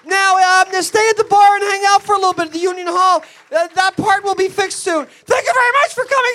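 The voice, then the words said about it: Screaming, loud shouted voice. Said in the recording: “Sorry for screaming.”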